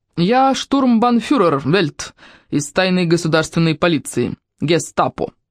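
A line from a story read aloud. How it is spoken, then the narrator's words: Man, heavy accent. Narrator (Russian): с сильным акцентом сообщил человек в черном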